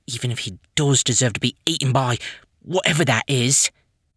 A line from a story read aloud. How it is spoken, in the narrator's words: Piper muttered under her breath